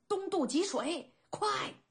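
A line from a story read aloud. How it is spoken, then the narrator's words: Roar. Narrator (Chinese): 大吼一声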